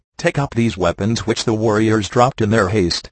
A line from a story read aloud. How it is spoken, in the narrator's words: said he